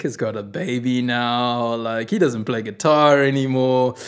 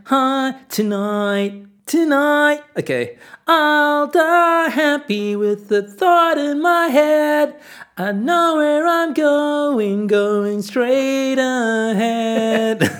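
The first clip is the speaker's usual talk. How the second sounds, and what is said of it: Whiny teenage voice, American twang. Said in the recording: “my young, like, 14-year-old whining voice. ... Get an American twang.”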